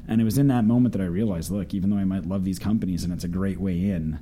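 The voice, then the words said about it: Canadian accent. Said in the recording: “I'm Canadian, if you haven't got the accent by now.”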